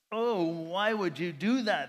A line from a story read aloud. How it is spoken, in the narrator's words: They groaned